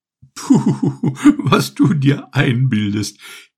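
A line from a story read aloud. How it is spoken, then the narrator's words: Giggling. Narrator (German): kicherte die hübsche Nieswurz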